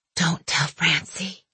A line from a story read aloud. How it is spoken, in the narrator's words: she whispered